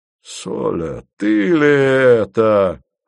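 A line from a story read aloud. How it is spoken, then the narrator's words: Exclamation. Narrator (Russian): воскликнул Антей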